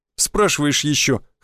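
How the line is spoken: Snorting. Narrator (Russian): хмыкнул Федька

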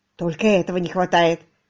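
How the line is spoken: Muttered. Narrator (Russian): пробормотал Томас

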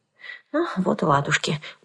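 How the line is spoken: Muttered. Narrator (Russian): пробормотала я

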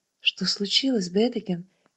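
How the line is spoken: Soft question, aunt. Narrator (Russian): мягко спросила ее тетя

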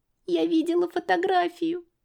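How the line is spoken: Sobbing. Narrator (Russian): всхлипнула Лиля

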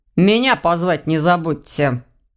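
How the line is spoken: Muttering. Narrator (Russian): буркнул Ваня

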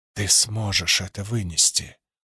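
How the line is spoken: Whisper. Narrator (Russian): прошептала Вуаль

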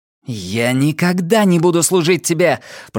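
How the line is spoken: Through gritted teeth. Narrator (Russian): процедила Инеш

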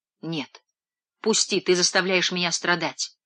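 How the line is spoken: Deeply hurt whisper. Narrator (Russian): смертельно обиженная прошептала Дениза

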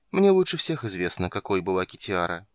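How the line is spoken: Woman sighing. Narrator (Russian): вздохнула женщина

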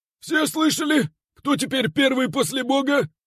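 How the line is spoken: Loud question. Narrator (Russian): громко интересуется художник

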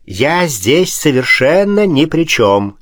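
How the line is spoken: Cheerful prince. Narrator (Russian): весело сказал князь

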